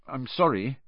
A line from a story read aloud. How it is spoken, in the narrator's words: Harry mumbled